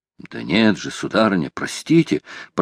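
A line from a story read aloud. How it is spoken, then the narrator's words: Old man muttering. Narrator (Russian): пробормотал старый моряк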